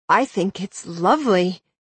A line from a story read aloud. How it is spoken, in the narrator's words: I replied through gritted teeth